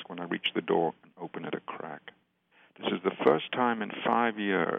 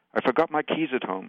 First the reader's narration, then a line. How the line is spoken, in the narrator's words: pants, irritable and short-winded